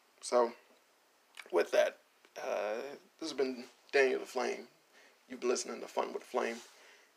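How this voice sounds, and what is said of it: Raspy voice. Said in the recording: “my voice is raspy ... It's so raspy. Oh, it's raspy.”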